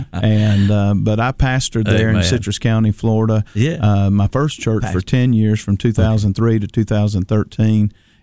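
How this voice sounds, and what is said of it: North Georgia Southern accent. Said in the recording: “my North Georgia accent”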